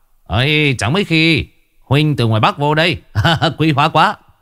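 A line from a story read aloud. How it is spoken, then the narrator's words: Booming loud voice. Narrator (Vietnamese): ông chủ Huỳnh nói oang oang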